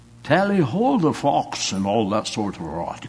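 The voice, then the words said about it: Put-on posh British accent. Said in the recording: “I get back from Britain. ... talking like a Brit”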